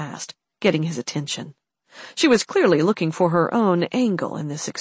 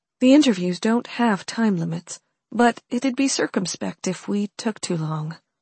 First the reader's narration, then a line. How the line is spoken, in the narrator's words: Holly said, her tone sounding resigned